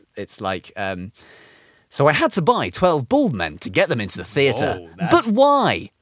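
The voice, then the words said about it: Put-on voiceover narrator voice. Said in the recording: “do my voiceover voice”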